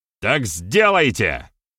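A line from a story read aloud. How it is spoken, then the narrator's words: Barked. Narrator (Russian): рявкнул Беромир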